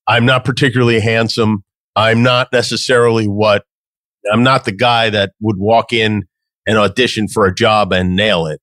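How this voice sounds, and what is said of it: New York accent. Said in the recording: “I've got a New York accent.”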